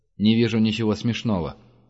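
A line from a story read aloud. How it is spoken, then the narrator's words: Plain. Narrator (Russian): сказал он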